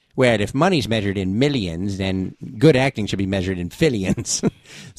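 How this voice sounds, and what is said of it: Imitates another person's voice. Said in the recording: “my Corey impression, well, it sounds something like this”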